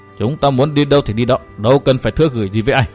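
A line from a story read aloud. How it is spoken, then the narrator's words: Cold reply. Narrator (Vietnamese): Hận Thiên mới lạnh lùng đáp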